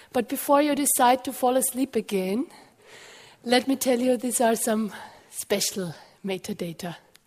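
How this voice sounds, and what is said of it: Voice in poor condition. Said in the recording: “sorry for my voice. My voice is not very good this morning”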